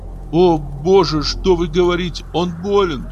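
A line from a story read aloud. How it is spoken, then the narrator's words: Frightened cry. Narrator (Russian): испуганно вскрикнула хозяйка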